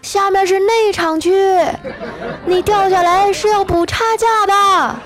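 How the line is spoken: Shouting. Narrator (Chinese): 就听那保安接着喊

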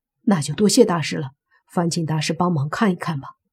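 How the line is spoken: Hurried. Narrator (Chinese): 莫凡急忙说

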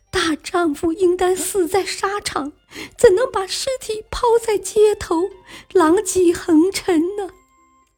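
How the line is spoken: Reproachful, with hidden meaning. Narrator (Chinese): 他的女儿……说话听上去像是责备父亲，其实话中藏话

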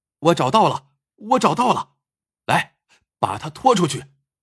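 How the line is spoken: Shouting. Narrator (Chinese): 胡大喊道

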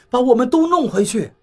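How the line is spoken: Hurried. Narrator (Chinese): 我急忙说道

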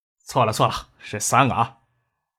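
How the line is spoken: Sighing, adding. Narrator (Chinese): 叶宪兵摇头叹息，补充的说道

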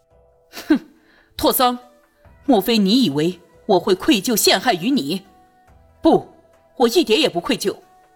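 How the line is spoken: Cold sneer. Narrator (Chinese): 朱宇 冷笑了一声

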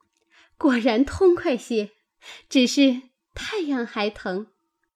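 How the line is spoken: Laughing. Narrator (Chinese): 晴雯笑道

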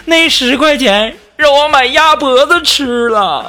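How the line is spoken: Crying. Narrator (Chinese): 然后他哭了，说

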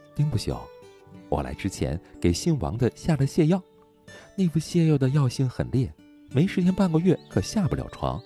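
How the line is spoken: Snickering. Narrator (Chinese): 徐清霜偷笑着说

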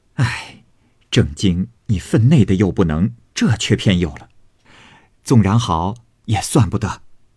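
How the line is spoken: Crowd laughing. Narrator (Chinese): 众人笑道

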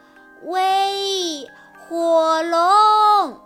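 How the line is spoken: Shouting as loud as possible. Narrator (Chinese): 尽可能大声地喊

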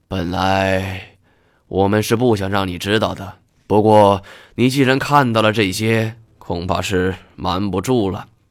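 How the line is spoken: Sighing. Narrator (Chinese): 白兔叹了一口气

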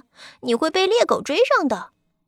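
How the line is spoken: Mocking, teasing. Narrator (Chinese): 哥哥们取笑他说

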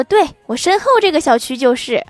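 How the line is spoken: Smiling. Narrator (Chinese): 我笑着说

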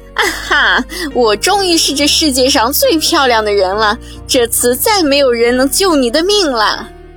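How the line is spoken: Laughing triumphantly. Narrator (Chinese): 他大笑着说

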